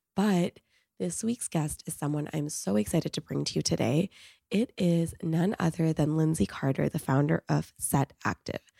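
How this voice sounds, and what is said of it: Sick, strained voice, hard to speak. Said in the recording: “as you can probably tell by my voice, I am not feeling so hot. I am dealing with a bacterial cough, which makes it really hard to speak”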